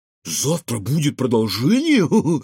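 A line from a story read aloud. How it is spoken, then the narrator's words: Squealing with laughter. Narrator (Russian): повизгивал от смеха Кефир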